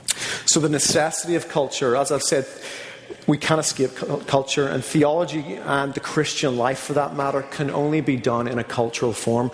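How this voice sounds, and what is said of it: Northern Irish accent. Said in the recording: “I granted it's with a weird accent ... being from Northern Ireland”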